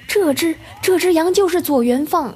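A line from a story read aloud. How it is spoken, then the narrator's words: Shouted urgently. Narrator (Chinese): 那人马上喊道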